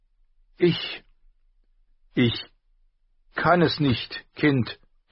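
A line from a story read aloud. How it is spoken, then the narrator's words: Loud call. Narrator (German): rief sie laut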